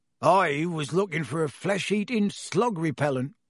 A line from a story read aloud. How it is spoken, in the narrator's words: growled Hagrid